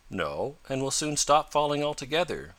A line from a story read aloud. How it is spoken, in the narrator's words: calmly declared Tom